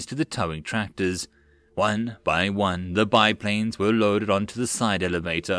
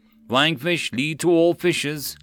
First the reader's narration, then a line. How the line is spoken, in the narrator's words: Legos called out